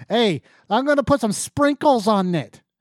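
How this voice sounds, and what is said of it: Bad fake Massachusetts accent. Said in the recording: “bad actors that don't know how to do a fucking accent from Massachusetts”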